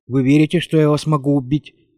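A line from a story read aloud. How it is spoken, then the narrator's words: Careless tone. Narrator (Russian): небрежным тоном задала она вопрос Марте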